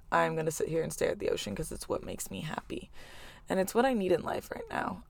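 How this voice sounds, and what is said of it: Low, raspy, worn-out voice. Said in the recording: “my voice is a little raspy ... the voice is like kind of not there right now ... the little like low raspy voice”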